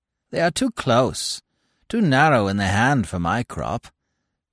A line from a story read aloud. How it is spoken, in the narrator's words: croaked the adjutant